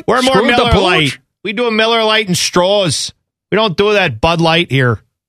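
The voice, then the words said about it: Exaggerated Wisconsin accent. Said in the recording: “bad Kenosha, Wisconsin accent”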